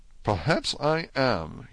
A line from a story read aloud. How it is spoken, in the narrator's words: answered quietly